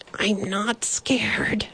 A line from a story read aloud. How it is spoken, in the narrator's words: he whispered loudly